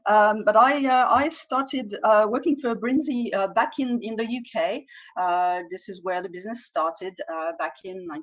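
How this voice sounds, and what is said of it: French accent. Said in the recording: “I'm French, as you can probably tell from my name and possibly from my accent as well.”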